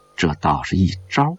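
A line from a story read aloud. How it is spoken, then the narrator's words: Murmuring to himself. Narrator (Chinese): 张幼林喃喃自语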